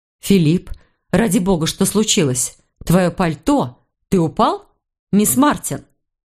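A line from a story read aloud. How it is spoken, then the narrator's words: Anxious, sharp voice. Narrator (Russian): Ее голос звучал беспокойно и резко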